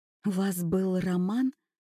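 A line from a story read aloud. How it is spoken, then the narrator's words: Whispered question. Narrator (Russian): шепотом спросила Юля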